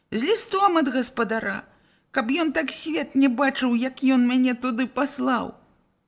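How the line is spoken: Crying boy. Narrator (Belarusian): хлопчык зноў заплакаў

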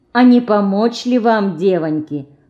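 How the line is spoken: Gentle old man. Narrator (Russian): ласково спросил дед

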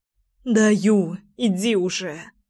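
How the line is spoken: Sobbing. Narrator (Russian): всхлипнула Лина

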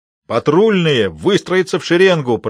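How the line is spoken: Roaring command. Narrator (Russian): проревел Моррисон

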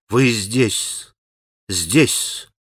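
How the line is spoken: Obsequious mutter. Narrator (Russian): бормотал он подобострастно

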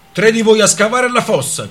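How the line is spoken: Soldier shouting. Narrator (Italian): gridò un soldato

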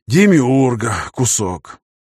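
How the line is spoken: Sighing. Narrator (Russian): вздохнул

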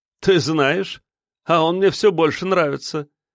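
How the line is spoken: Chuckling. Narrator (Russian): хохотнул Павел

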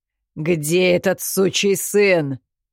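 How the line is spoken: Guttural growl. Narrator (Russian): гортанно прорычал Ри

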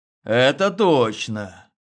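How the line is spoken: Sighing. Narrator (Russian): вздохнул я

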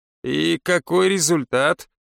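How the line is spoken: Skeptical snort. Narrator (Russian): Наташа хмыкнула

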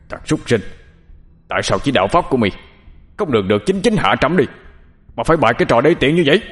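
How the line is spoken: Furious shout. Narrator (Vietnamese): Ca Lâu Vương giận tím người, quát lên

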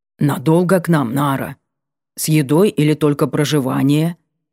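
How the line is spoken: Deep bass voice. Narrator (Russian): пробасил он

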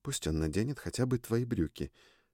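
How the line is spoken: Quiet suggestion. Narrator (Russian): тихо предложила Триш

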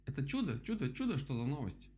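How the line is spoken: Rapid chattering. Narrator (Russian): затараторил дятел

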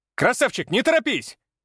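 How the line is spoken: Shouted. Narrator (Russian): крикнул я

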